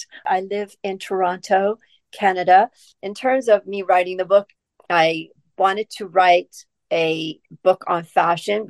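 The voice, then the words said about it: Non-British accent. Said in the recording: “my non-British accent.”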